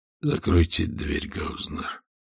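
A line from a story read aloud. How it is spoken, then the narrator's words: Quiet, as before. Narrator (Russian): так же тихо сказал Пепе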